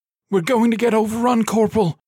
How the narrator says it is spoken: cried

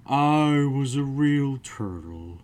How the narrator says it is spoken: said the Mock Turtle at last with a deep sigh

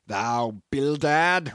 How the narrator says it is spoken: roared Peleg

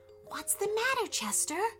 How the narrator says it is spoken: whispered Thomas

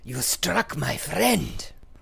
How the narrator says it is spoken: with a hiss

